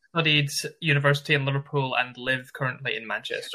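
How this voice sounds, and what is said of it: Scottish Glasgow accent. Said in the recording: “I always enjoy hearing your great accent. You have a great accent for podcasting ... I love your Glasgow accent ... It's a really wonderful accent”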